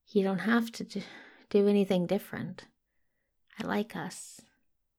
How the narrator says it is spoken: Daniel mumbles into his lips

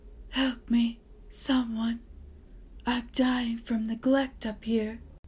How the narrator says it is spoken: Howell's voice was presently heard shouting weakly

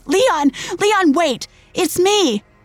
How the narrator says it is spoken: I screamed

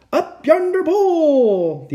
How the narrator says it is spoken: the other shouted

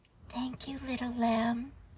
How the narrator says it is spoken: the baby's mother said softly

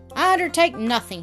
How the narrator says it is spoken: shouted the laird in his feeble, woolly, yet harsh voice

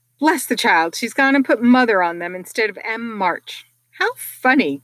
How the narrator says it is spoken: cried Jo

